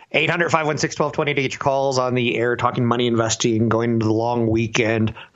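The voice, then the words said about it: Slightly hoarse, failing voice. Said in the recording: “Losing my voice a little bit today”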